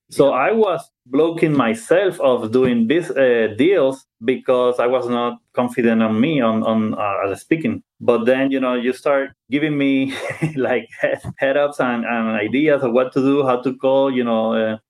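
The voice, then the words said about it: Non-native English accent. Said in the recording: “I have an accent. I'm not good at speaking English.”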